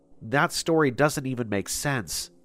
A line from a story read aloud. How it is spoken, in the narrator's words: I said